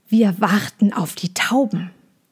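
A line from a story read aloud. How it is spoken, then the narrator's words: Explaining with slight hiss. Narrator (German): erklärte sie, und in ihrer Stimme schwang ein kleines Fauchen mit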